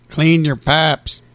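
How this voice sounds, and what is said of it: Put-on Tennessee accent. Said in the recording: “You're working in that Tennessean accent.”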